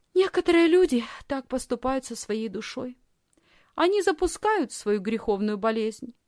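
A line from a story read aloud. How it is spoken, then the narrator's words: Thoughtful reply. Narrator (Russian): Лисхин задумчиво ответила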